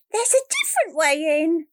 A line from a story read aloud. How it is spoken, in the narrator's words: he cried